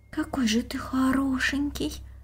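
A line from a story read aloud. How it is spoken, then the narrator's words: Girl's whisper. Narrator (Russian): прошептала девочка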